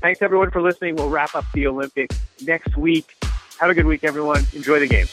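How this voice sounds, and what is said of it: Slightly out of breath, hurried. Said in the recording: “I'm half out of breath. And you sense my haste.”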